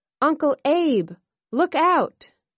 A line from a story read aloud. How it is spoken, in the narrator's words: she cried